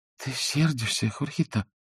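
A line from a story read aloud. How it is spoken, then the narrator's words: Trembling voice. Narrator (Russian): сказала она дрогнувшим голосом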